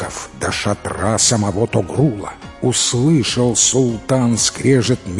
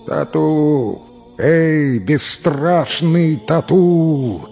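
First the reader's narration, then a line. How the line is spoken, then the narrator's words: Booming voice. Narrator (Russian): прогремел голос Тагрула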